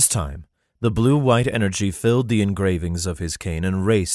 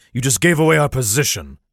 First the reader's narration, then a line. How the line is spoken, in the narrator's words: he roared angrily